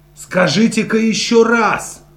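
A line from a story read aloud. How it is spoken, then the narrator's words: Excited exclamation. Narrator (Russian): взволнованно воскликнул Чарли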